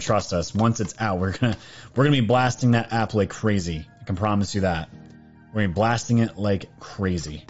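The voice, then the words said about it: Scratchy, worn-out voice. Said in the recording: “My voice is getting scratchy”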